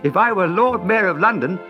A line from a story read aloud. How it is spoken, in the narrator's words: Dick used to say laughingly